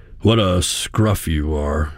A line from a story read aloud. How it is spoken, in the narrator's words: he grunted